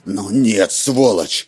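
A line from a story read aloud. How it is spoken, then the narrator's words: Roar. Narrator (Russian): взревел Роланд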